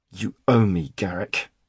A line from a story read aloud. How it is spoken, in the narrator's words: said through gritted teeth